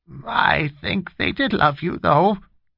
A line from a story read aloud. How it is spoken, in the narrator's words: Winnie insisted in a hoarse, shaking voice